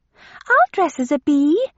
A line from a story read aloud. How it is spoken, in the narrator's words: cried Lydia excitedly